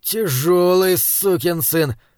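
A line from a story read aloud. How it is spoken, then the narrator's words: Breathless exhale. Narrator (Russian): выдохнул Хорза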